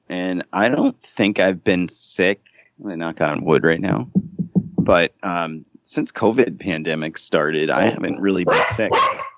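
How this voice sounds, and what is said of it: Congested, sick-sounding voice. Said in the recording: “you can kind of hear it in my voice, but I have a cold,”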